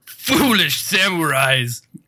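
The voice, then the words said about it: Impression of Aku villain voice. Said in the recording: “my Aku impression, and I didn't practice it ... Did Mako come back from the dead to read this email?”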